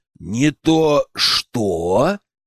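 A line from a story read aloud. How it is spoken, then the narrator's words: Growl. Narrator (Russian): прорычал я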